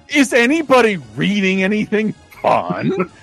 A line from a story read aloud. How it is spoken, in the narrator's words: she laughed so hard